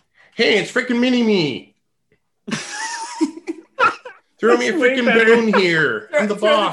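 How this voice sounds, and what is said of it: Dr. Evil character voice impression. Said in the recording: “Was that supposed to be Dr. Evil? ... Let's hear your impression”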